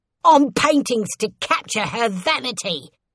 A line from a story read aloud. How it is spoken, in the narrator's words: shouted